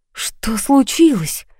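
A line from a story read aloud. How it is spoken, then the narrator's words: Frightened whisper. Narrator (Russian): испуганно прошептала я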